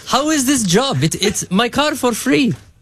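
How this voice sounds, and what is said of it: Put-on accent imitating a father. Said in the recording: “My dad doesn't have an accent. It's just funnier for the story.”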